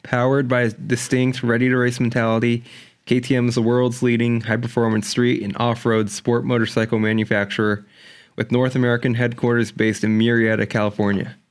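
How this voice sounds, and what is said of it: Near radio announcer voice. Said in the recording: “You almost have the radio voice going.”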